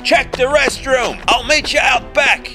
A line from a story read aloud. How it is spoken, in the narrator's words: Baldy yelled